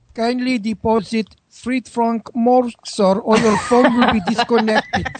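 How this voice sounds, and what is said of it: Put-on French accent. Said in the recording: “French accent I've ever heard.”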